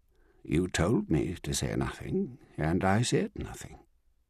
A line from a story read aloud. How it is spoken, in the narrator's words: Strickland said evenly